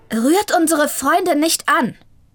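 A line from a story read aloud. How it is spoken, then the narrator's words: Sudden call. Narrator (German): rief da plötzlich eine Stimme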